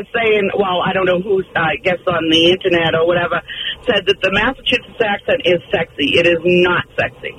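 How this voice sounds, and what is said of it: Raspy Boston accent. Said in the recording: “you have a total Boston accent, sweetheart. Not to mention a pack a day”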